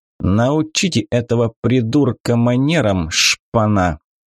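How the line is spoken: Contemptuous, through gritted teeth. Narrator (Russian): презрительно процедил парень

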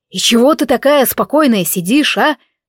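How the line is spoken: Barked. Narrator (Russian): рявкнул этот дурак

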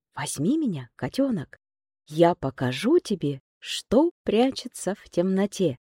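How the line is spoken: Whisper. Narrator (Russian): Тот прошептал

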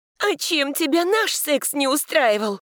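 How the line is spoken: Shouted. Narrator (Russian): закричала я

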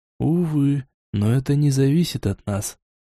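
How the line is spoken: Sad. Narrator (Russian): печально

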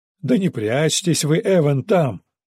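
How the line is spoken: Mocking unseen neighbor. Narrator (Russian): насмешливо продолжил невидимый сосед

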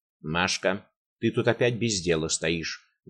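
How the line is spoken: Rough, addressing girl. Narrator (Russian): грубо обратилась она к девочке

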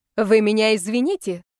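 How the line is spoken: Loud impatient bark. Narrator (Russian): гаркнула, теряя всякое терпение и воспитание

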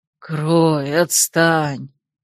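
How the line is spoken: Muffled sleepy grumble. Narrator (Russian): буркнул он, уткнув нос в восхитительно мягкую подушку

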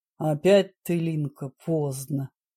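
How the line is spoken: Good-natured deep rumble. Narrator (Russian): Добродушно прогудел охранник Виктор со своего места у входной двери

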